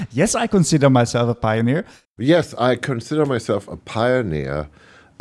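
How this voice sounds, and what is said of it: Imitated German accent in English. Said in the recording (Dutch): “met een heel heerlijk Duits accent”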